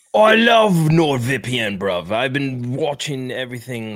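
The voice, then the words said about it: Put-on British accent. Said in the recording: “it changed my accent as soon as I clicked ... I am now British.”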